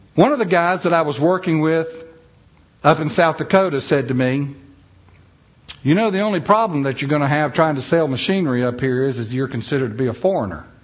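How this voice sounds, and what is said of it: Southern US accent, North Carolina. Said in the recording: “where's that accent? ... somebody thought that I had an accent ... Now, I'm from North Carolina.”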